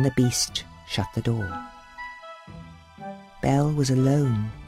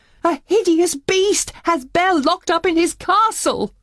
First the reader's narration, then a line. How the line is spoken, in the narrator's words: Maurice cried